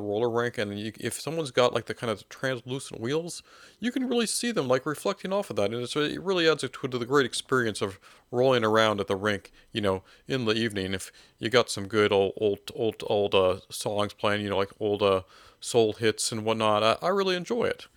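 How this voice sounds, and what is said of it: Imitates another person's voice. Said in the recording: “that's a pretty good impression... Even the voice is very... that's right on the money”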